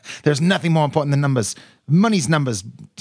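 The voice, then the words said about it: Imitates another person's accent, poorly. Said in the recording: “I'm going to butcher his accent if I do it any longer”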